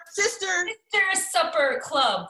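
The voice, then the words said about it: Put-on American accent. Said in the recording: “That's in my American accent.”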